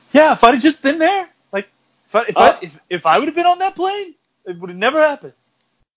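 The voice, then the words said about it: Imitates another person's voice. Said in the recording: “my Mark Wahlberg impression”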